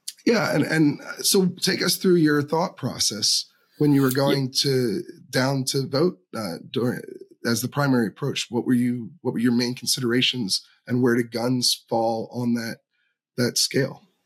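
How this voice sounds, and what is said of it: Slightly rough, congested voice. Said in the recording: “excuse my voice for anyone who's noticing this, but I'm getting over a little bit of a cold”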